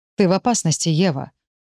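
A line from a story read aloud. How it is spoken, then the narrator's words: Flat colorless tone. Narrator (Russian): бесцветным тоном добавляет Харт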